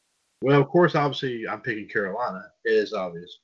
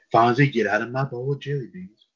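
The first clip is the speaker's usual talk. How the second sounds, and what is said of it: Imitates another person's voice. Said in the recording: “my Ronald Reagan impression”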